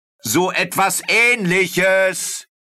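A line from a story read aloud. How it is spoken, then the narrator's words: Called out. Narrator (German): rief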